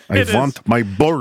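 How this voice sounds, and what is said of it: Put-on Russian accent. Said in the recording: “terrible Russian accent ... it's a tricky accent ... I am lucky enough for some weird reason to be able to do it, I think, pretty well”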